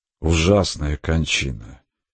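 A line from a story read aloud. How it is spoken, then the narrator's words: Grieving sigh. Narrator (Russian): сокрушенно вздохнул отец Петр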